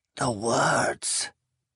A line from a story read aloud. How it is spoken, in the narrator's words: Eleazarus hissed